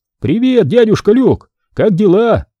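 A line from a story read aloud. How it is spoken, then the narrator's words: Harsh. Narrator (Russian): губернатор говорил так резко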